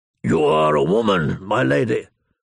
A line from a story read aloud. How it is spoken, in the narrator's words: the great John rumbled in his deep voice